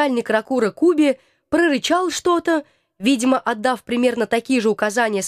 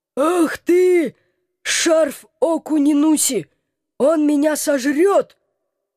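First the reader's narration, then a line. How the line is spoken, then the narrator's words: Howling. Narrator (Russian): Взвыла голова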